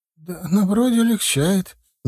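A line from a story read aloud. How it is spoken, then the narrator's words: Uncertain. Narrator (Russian): неуверенно сказала Екатерина Серая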